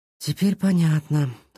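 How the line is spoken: Sighing. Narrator (Russian): вздохнул Сашка

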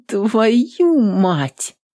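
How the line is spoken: Pained groan. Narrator (Russian): простонала воительница

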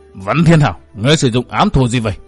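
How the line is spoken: Roaring man's shout. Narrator (Vietnamese): Gã trung niên chột mắt gầm thét nói

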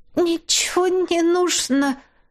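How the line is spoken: Moaning. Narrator (Russian): простонала Кристина

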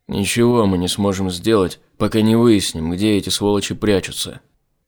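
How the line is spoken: Grumbling. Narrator (Russian): проворчал Айзек

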